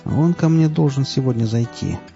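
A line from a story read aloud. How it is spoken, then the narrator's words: Plain. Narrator (Russian): ответил курильщик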